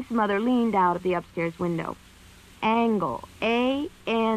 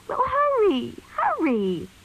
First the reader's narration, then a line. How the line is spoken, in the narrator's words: cried Mink